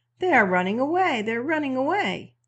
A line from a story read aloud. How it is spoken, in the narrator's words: The major general cried out to the old Chinaman